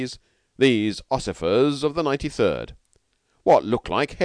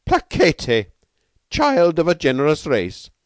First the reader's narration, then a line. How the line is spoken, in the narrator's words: he cried to Beetle